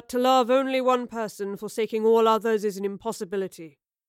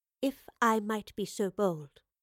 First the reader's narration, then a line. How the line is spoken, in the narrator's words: she said quietly